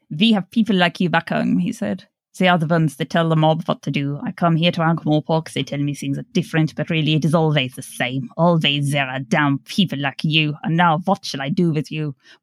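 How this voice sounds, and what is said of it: Put-on accent drifting across European accents. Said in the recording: “my accent went on a full European tour there”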